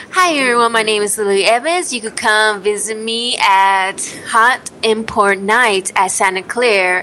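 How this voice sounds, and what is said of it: Strong Swedish-Filipino accent. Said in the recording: “she's Swedish and Filipino, so the accent is strong.”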